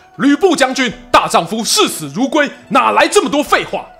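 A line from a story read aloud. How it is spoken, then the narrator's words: Distant angry roar. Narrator (Chinese): 远方传来一声怒吼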